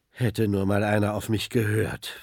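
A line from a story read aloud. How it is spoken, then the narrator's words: Father sighing. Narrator (German): seufzt Papa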